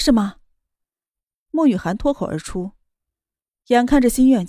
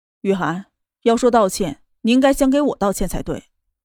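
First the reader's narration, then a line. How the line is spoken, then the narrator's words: Cool, flat. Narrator (Chinese): 淡淡的道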